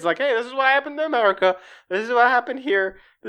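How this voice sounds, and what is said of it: Put-on redneck accent. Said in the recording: “I don't know why he has a redneck accent”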